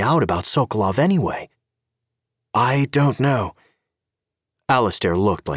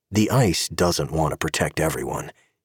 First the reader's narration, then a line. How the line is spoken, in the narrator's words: Gabe muttered